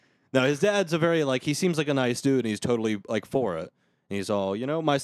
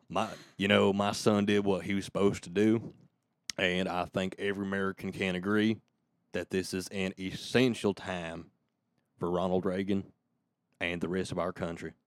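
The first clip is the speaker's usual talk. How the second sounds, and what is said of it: Put-on Western American accent. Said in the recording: “He doesn't have a Western accent, but I'm going to give him one.”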